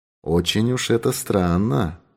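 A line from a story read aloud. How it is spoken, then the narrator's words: Muttering. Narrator (Russian): пробормотал он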